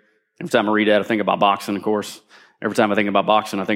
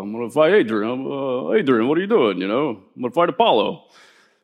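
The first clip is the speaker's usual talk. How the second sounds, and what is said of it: Imitates Rocky movie character voice. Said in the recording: “I think about Rocky ... I really like doing that voice”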